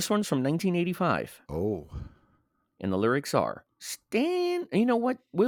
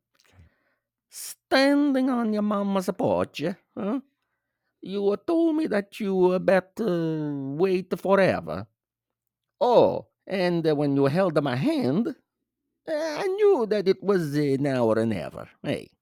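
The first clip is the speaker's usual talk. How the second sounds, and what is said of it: Put-on Northern Italian accent. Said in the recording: “I'm gonna read these lyrics out in an Italian accent... Northern Italian accent.”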